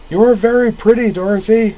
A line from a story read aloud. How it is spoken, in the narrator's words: he yelled